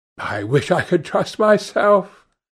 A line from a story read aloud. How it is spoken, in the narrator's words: said Lord Henry, laughing